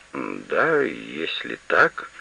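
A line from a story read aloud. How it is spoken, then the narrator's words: Embarrassed mumble. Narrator (Russian): смущенно пробормотал господин Бертрам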